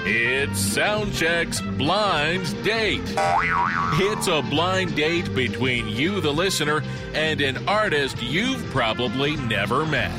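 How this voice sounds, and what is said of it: Exaggerated announcer voice. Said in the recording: “weird announcer voice”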